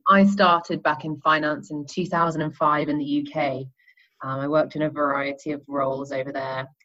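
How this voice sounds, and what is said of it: Non-American accent. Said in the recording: “as you can tell, I have an accent, so I'm not from the US”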